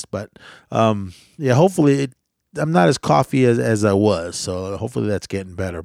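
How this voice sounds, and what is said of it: Slightly sick-sounding voice. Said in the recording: “my voice is still a little under the weather”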